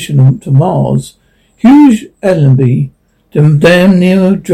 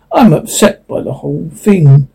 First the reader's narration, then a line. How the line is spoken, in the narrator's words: he grunted